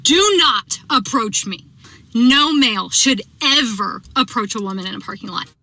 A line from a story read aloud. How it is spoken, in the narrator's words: I literally yelled at him and I said